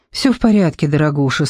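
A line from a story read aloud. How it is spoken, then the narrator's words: Said with deep sigh. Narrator (Russian): сказала, глубоко вздохнув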